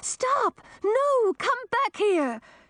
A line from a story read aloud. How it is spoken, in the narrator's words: Coral screaming